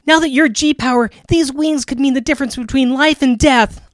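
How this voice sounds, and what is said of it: Acted character voice reading dialogue. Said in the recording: “we have to do the voices”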